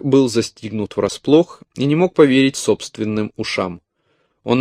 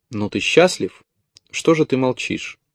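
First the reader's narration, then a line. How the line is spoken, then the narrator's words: Gloomy forced words. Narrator (Russian): Ему удалось мрачно выжать из себя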